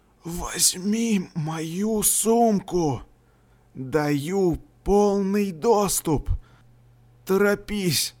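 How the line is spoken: Barely audible whisper. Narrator (Russian): еле слышный шепот Карта

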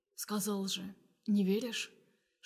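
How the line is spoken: Quiet whisper. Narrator (Russian): Шепчу тихо

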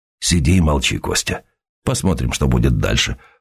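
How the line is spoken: Low voice. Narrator (Russian): вполголоса ответил Сергей

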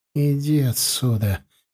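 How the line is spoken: Quiet, softened grumble. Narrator (Russian): тихо буркнула она, но уже не так агрессивно

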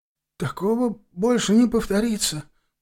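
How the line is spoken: Timid babble. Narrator (Russian): пролепетал он

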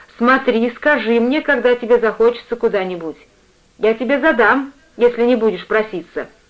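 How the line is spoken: Mother's stern instruction. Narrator (Russian): мать строго-настрого наказав

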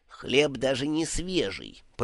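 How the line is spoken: Grumbling, nose in saucer. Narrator (Russian): пробурчал Ом, погрузив нос в блюдце

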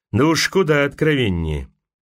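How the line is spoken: Gloomy mutter. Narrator (Russian): Одна из представительниц Мэду Вуда мрачно пробормотала

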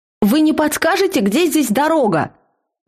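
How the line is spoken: Loud question. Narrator (Russian): Громко спросила я

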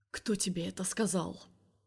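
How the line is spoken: Quiet question. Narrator (Russian): спрашивает он тихо

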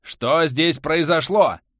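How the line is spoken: Menacing question. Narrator (Russian): грозно спросил Бихань, получивший возможность говорить

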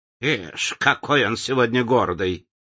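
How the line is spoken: Scornful snort. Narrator (Russian): фыркнула она

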